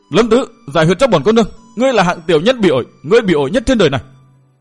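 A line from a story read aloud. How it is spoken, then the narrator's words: Screaming. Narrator (Vietnamese): Tuyết Lan thét lên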